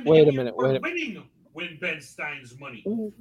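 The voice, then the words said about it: Imitates another person's voice. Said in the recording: “pull your best Vince McMahon impression”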